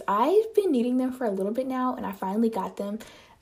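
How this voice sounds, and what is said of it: Voice altered by new braces. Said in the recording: “my voice probably sounds so much different... I got braces... You can probably hear the difference in my voice right now”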